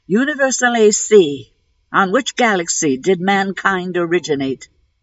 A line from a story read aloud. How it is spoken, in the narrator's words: he called out